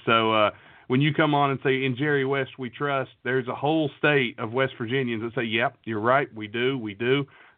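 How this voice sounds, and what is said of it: West Virginia accent. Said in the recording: “I'm from West Virginia. I don't know if you can tell by the accent, but I live in West Virginia.”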